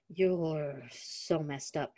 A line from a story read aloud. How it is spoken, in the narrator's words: he muttered in self-deprecation, talking to himself